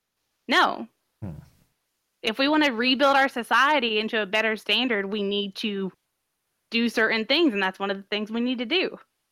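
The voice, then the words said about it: Speaks with a noticeable accent. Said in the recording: “your adorable accent”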